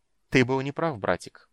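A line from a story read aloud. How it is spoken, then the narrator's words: Soft voice. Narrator (Russian): произнес голос мягко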